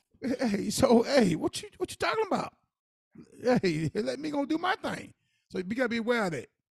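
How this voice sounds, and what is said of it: Southern country accent. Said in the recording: “I'm old country man. I talk country”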